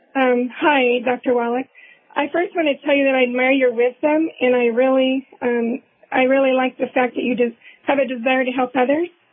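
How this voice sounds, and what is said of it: Weak, fading voice. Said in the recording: “I'm losing my voice.”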